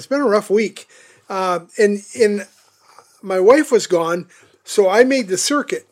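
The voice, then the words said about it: Hoarse, strained voice. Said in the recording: “I'm already losing my voice, man... I think I was losing my voice anyway”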